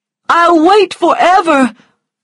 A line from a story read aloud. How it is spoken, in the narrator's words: cried Charles